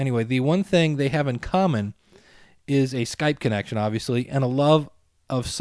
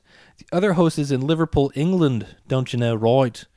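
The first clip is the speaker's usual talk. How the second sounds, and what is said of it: Bad put-on English accent. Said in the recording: “That's the worst English accent ever.”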